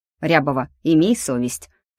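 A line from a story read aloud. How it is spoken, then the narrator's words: Stern reproach. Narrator (Russian): строго осудил Власов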